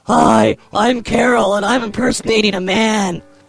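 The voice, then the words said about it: Character voice imitating a man. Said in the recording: “The Carol voice ... I could do Carol, like, impersonate a man.”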